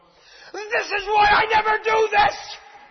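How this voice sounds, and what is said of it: Screaming. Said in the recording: “I'm screaming. I really am.”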